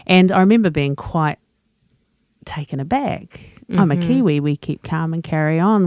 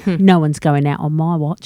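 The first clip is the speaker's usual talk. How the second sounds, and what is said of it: Put-on British accent. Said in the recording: “With a British accent.”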